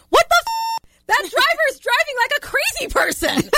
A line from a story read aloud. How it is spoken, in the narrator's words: my toddler, who screamed